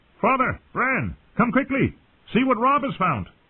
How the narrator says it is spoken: shouted down at them

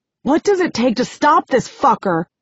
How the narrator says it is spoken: shouts

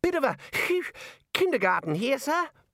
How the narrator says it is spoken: Ponder wheezed

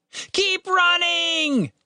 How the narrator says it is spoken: Tim shouted in response

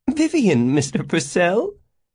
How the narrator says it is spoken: what sounded like a giggle

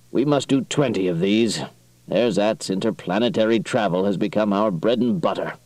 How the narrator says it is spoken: calculated dryly

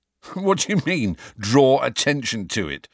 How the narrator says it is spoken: said Ron, half laughing

